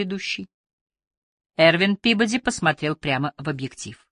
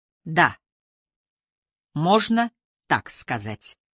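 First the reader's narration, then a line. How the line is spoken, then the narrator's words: Plain. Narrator (Russian): ответил он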